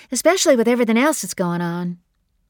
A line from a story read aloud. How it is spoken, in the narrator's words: said brightly, firmly